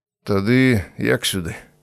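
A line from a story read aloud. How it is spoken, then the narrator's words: Sad smiling. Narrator (Belarusian): Віцька неяк сумна усміхнуўся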